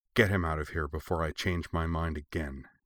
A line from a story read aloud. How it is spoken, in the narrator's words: she growled to one of them